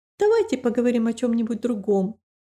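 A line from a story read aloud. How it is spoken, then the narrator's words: Slightly sharp. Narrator (Russian): немного резко сказала Рэйчел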